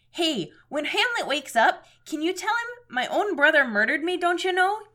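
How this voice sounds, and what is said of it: Put-on Minnesota accent. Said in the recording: “I'm supposed to be doing a Minnesota voice.”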